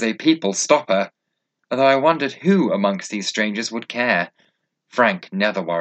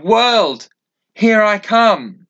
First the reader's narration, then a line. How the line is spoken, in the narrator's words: shout